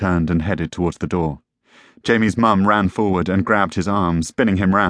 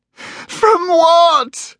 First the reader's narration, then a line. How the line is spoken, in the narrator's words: his wife screamed